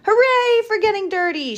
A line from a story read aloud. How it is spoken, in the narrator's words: shouts